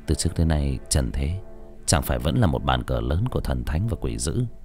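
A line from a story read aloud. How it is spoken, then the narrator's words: Soft, close to ear. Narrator (Vietnamese): Hà kề miệng vào gần tai Hồng Nhung mà nói khẽ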